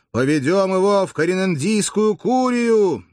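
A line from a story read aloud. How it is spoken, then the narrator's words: Thunderous bellow. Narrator (Russian): кто-то гаркнул громовым голосом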